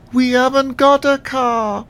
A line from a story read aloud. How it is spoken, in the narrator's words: bleated again more loudly this time